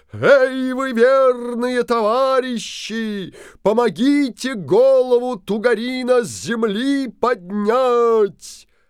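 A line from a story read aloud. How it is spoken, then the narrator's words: Booming shout. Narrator (Russian): Крикнул Алеша Попович зычным голосом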